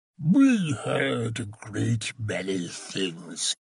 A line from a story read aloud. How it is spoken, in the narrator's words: Vols Pinescu choked the words out past a huge scab of crusted pus which half sealed his lips, impeding his speech